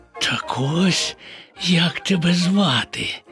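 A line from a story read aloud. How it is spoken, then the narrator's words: Whispered. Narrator (Ukrainian): прошепотів Боня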